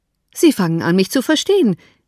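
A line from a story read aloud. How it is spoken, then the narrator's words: Calling out. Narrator (German): rief sich zu ihr wendend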